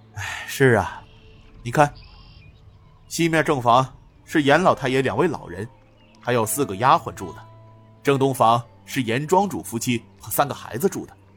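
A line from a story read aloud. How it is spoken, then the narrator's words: Sighing. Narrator (Chinese): 高怀文叹声道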